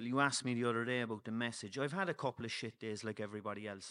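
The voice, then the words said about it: Irish Cork accent. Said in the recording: “I know I have the Cork accent”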